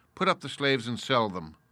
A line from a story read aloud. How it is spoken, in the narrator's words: My lord merely said to his head miscreant coolly